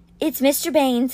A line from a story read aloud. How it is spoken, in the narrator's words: said Rennie in a choked voice